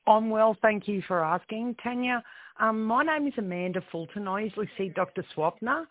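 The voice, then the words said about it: Froggy, hoarse voice. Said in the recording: “I've got a frog in my throat.”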